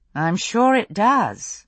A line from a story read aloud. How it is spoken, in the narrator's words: Brianna said dryly